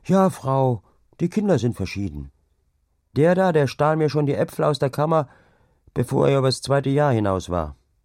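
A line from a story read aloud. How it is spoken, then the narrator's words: Woman calling, rough affection. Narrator (German): die Frau mit derber Liebe rief dann wohl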